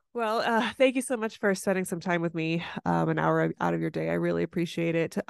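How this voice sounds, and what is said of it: Nasal, congested voice from cold. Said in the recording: “I have a head cold, so if I sound nasally”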